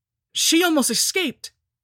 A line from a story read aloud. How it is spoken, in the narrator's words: cried Dudley